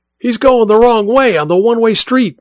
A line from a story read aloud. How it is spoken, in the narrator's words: Mike shouted, both into the radio and at the others in the car